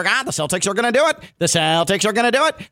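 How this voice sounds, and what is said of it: Imitates another person's voice, poorly. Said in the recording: “my Mike Greenberg impression ... I mean, it's not that good ... It's pretty bad”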